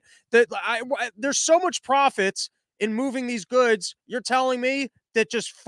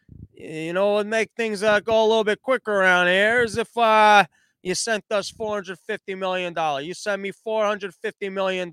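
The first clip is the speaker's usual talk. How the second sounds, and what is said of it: Put-on mafia boss accent. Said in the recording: “some mafia boss sat down with Pete Buttigieg and was like ... I don't know what accent I'm doing there”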